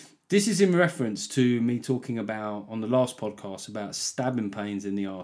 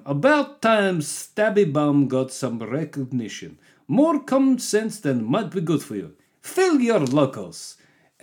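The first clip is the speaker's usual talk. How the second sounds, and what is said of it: Put-on Russian accent. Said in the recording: “Let's just do this one as a Russian accent for no apparent reason.”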